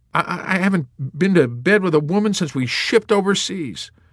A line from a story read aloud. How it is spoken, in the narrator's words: Colonel Moodus whimpered tearfully